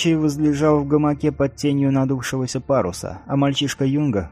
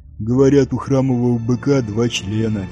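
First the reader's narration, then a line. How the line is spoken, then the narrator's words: Lazy reply. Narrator (Russian): лениво отозвался Нио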